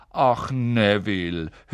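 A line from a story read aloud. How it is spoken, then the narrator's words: Old woman sighing. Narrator (German): die alte Frau seufzen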